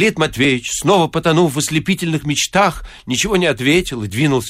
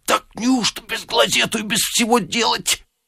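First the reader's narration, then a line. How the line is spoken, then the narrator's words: Muttering. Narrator (Russian): Безенчук ... по обыкновению бормоча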